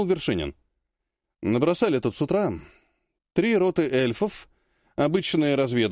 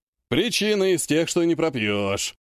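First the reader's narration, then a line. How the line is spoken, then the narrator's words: Snorting. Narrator (Russian): хмыкнул Кравченко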